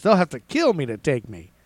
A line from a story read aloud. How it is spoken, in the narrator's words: Roe thumped his chest and exclaimed to reporters